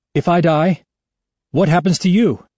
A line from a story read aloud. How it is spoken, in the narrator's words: I ask, my voice rising